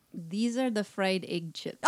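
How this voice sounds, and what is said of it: Put-on Russian accent. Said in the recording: “Do a Russian accent. ... can do a Russian accent.”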